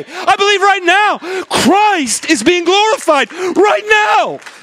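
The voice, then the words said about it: Loud, yelling delivery. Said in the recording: “I'm sorry if I'm yelling.”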